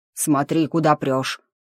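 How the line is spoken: Gruff grumble. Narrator (Russian): буркнул олень

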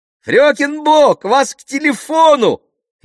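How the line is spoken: Shout. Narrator (Russian): крикнул

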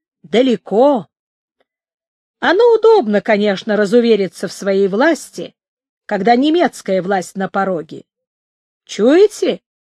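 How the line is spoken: Menacing. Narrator (Russian): сказал он, грозно

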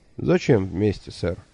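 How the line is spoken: Cold astonishment. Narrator (Russian): холодно изумился великолепный Лонли Локли

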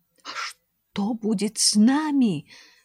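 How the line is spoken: Frightened whisper. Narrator (Russian): со страхом прошептал Эменеф

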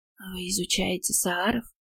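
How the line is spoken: Quiet question. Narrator (Russian): тихо уточнила

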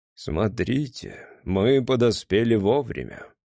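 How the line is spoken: Calm. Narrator (Russian): спокойно произнес

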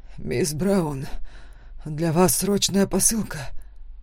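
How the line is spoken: Hoarse. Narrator (Russian): хрипло сказал он

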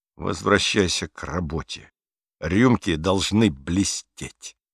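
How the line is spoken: Very quiet, barely audible. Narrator (Russian): заговорил лейтенант очень тихим голосом, настолько тихим, что Бруно его с трудом расслышал

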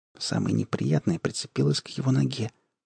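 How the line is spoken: Whisper. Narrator (Russian): прошептала Алиса Айгону

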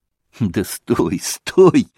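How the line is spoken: Laughing. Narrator (Russian): смеялся Иван

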